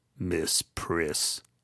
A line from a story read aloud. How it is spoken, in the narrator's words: Maisel … muttering